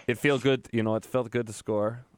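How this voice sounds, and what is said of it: Bad put-on Finnish accent. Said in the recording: “that's a very bad Finnish impression”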